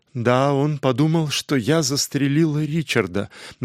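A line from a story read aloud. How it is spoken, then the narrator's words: Insistent, almost hopeless voice. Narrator (Russian): настойчиво добавила Лора уже почти безнадежным голосом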